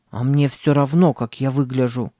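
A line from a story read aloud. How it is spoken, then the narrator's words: Grumbled. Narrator (Russian): пробурчал Сэм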